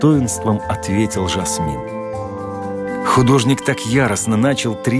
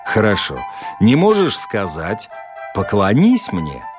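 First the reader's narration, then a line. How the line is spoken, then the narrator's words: Mocking suggestion. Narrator (Russian): предложил художник, насмешливо улыбаясь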